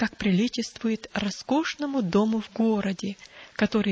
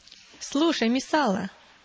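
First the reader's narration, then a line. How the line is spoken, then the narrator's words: Exclaimed. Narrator (Russian): воскликнул Друз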